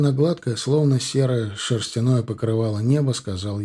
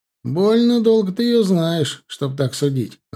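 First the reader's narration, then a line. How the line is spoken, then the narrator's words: Laughing. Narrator (Russian): рассмеялся Мишка Глушко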